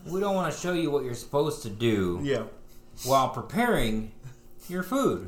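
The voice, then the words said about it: Sarcastic delivery. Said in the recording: “I'm being sarcastic. ... Clearly.”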